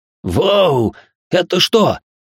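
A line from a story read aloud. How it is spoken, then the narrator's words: Startled exclamation. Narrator (Russian): воскликнул Макс, шарахнувшись в сторону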